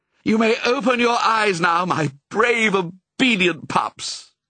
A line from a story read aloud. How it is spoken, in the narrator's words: cried Pongo